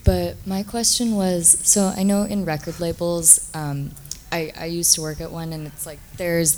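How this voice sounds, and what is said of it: Hoarse, fading voice. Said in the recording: “I'm kind of losing my voice.”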